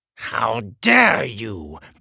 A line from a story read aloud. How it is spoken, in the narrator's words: the king spat